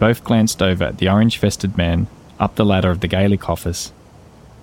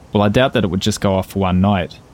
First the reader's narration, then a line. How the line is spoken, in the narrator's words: said Van Nguyen